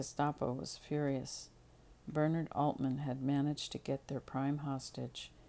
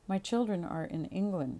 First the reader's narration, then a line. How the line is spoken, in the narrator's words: Teresa said evenly